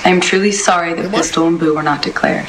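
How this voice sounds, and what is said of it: Put-on Australian accent, Jack Sparrow-like. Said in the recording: “Is he affecting an Australian accent? ... It's a little bit of Jack Sparrow going on there ... a very Australian attempt at an Australian accent”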